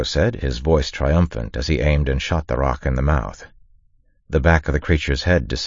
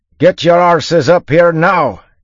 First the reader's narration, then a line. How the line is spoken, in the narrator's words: Yimt shouted at them